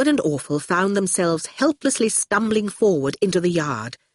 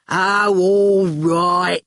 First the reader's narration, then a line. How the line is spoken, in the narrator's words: growled Shine